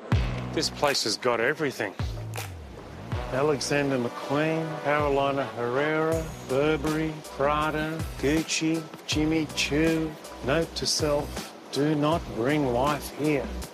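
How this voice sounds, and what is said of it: Enthusiastic Australian accent. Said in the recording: “as you could tell from the accents, this is a thoroughly Australian show with distinctly Aussie hosts who are pretty enthusiastic”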